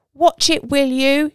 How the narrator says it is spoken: She shouts

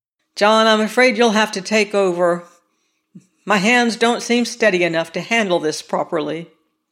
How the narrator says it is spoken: McAllen said irritably

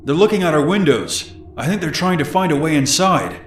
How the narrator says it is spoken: Aaron then shouted

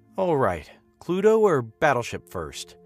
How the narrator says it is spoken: I groaned outwardly

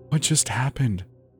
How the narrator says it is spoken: Jenny whispered

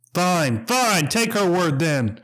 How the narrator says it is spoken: Harold screamed back at him

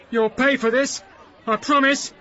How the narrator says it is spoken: he shouted threateningly

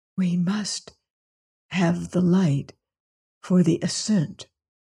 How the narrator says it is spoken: he whispered

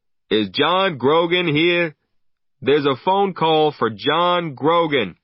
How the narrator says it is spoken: the barman called out

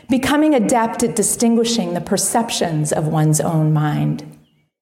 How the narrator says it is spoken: said Zenshin

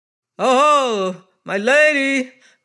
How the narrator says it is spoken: roared the hoarse chorus

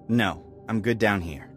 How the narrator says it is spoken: I said firmly

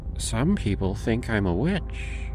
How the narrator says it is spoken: she said, her voice a low murmur

